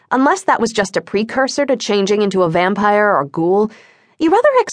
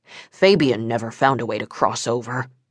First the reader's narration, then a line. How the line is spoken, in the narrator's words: Don muttered